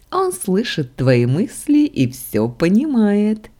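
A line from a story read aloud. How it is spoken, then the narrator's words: Giggling deity inside head. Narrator (Russian): Хихикало в голове божество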